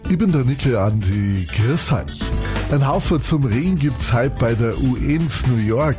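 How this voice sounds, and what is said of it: Lower Bavarian dialect. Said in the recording (German): “im schönsten Dialekt der Welt ... auf Niederbayerisch”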